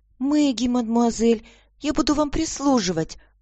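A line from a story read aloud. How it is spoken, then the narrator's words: Child's thin little voice. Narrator (Russian): ответила девочка тоненьким голоском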